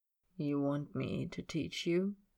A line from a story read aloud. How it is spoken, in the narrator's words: he murmurs